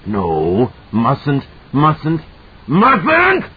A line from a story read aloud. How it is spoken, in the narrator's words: It shrieked